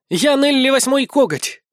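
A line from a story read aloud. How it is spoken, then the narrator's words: Ringing cry, little cat. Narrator (Russian): вскрикнула кошечка звонко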